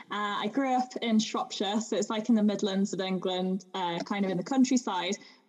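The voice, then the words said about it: English accent, slightly posh. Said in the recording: “my accent is obviously English ... I say Bath and Grass, a bit more like a posh person”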